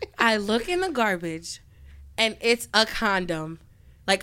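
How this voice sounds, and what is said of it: Usual voice. Nothing is said of it.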